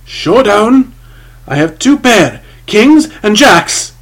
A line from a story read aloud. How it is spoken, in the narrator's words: His own well-simulated shriek of joy and triumph